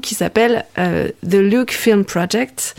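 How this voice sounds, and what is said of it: English title said with English accent. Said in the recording (French): “Ça fait bien quand je le dis avec cet accent, hein, c'est super sérieux.”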